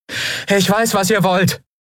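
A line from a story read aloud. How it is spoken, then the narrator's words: Called out into forest. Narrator (German): rief Endriel in den Wald hinein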